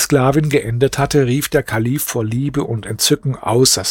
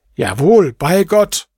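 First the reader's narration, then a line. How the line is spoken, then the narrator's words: Caliph exclaiming. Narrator (German): rief der Kalif aus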